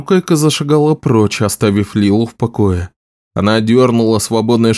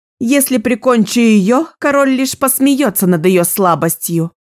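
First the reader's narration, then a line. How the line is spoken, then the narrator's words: Loud objection. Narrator (Russian): громко возразила Лила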